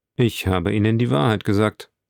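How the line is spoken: Cold answer. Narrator (German): antwortete er kalt

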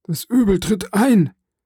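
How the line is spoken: Called out. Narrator (German): rief Faria

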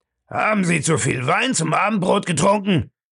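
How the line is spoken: Angry question. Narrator (German): fragte Bellamy wütend

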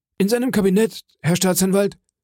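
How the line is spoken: Calling after someone. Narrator (German): Der Portier rief ihm nur nach

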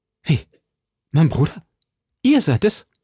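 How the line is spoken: Astonished exclamation. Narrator (German): rief sie höchlich verwundert

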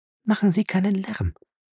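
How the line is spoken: Whispered. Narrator (German): flüsterte ihm Fay zu

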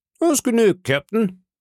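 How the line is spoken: Cheerful call. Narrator (German): rief Long John fröhlich

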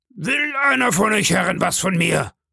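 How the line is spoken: Bellow. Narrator (German): brüllte Silver

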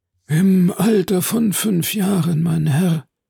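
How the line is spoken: Deep sighing speech. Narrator (German): sagte der Lucchese mit einem tiefen Seufzer

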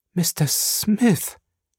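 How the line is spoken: Stammering. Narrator (German): sagte sie stotternd

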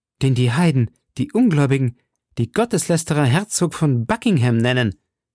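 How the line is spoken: Called out. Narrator (German): rief Milady

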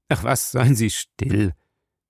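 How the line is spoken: Tired. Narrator (German): sagte Spike müde

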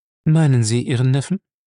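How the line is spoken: Calm question. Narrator (German): fragte John Wood ruhig

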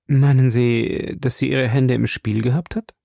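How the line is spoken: Hesitant question. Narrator (German): forschte zögernd

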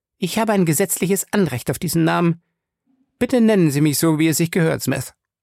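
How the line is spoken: Sharp correction. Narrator (German): verbesserte Fay scharf

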